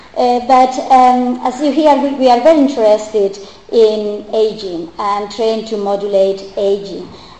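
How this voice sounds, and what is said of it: Strong Spanish accent in English. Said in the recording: “my poor English and my strong Spanish accent”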